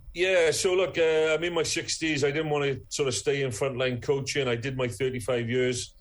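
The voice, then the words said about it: Strong Welsh accent. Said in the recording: “I'm getting my Welsh accent back... it's coming through strong, I think... back talking with a Welsh accent again”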